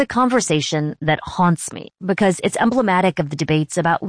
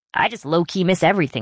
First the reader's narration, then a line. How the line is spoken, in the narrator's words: she said